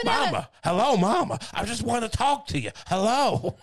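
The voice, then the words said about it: Breathless, stretched-out imitation of another person. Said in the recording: “Why was he always out of breath ... I'm not saying it's a good impression. He had that cadence. ... Like, everything was stretched out.”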